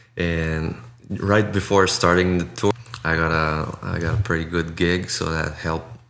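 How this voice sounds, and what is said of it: French-speaking accent in English. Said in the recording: “I'm a narrator, a voiceover actor in French. Of course, you can maybe hear the accent”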